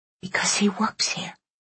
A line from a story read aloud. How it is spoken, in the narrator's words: Alice whispered